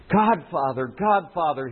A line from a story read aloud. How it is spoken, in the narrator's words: he called out blindly